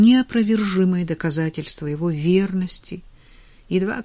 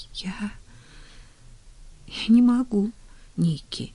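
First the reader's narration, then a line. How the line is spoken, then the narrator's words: Tearful whisper, woman. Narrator (Russian): прошептала она, пытаясь улыбнуться сквозь слезы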